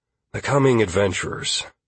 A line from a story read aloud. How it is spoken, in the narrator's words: I said with a sigh